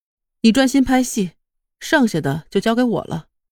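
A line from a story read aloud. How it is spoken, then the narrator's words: Calm voice. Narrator (Chinese): 叶晴空声音平静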